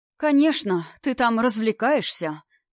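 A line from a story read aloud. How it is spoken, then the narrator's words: Sighing mother. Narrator (Russian): вздохнула мама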